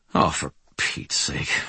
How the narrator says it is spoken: I muttered

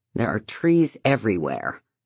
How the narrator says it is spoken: David says miserably

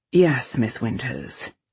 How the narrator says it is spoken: Vale said dryly

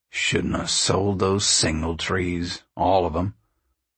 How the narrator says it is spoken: He grumbled

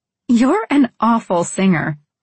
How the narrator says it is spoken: I said between laughs

